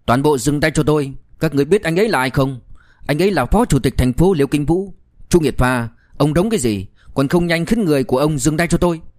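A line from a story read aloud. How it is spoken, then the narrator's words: Loud shout. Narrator (Vietnamese): Ngụy Tuấn Chí lập tức lớn tiếng quát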